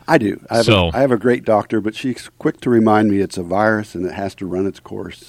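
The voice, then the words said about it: Raspy voice from a cold. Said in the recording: “My voice is kind of raspy. I'm fighting a cold right now”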